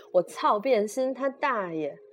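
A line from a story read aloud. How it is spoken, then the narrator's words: Chuckle, then angry roar. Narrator (Chinese): 管春嘿嘿一笑，怒吼一声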